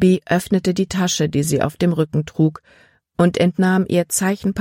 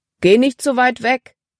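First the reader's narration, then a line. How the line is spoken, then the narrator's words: Calling out. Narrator (German): rief Paul ihr zu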